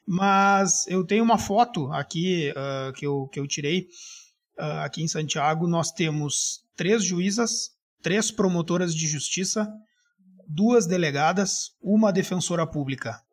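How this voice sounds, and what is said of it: Slight Gaúcho Brazilian Portuguese accent. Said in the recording (Portuguese): “Tu deve ter percebido pelo meu sotaque ... Sim, gaúcho ... só levemente ... levemente ... nada demais, mas é levemente”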